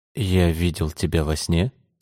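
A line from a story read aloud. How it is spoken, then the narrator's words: Plain. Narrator (Russian): сказал он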